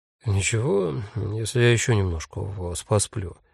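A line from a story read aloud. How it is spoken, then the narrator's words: Sleepy question. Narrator (Russian): сонно спросил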